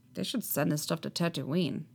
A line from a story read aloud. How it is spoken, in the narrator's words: he mutters